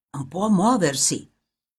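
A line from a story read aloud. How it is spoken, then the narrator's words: Deep-voiced whisper in ear. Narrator (Italian): qualcuno con voce grave gli sussurrava negli orecchi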